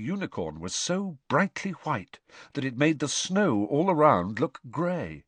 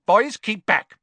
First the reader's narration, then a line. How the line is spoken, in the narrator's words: barked Professor Grubbly Plank